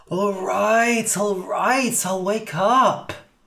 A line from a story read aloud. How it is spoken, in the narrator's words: groaned Cass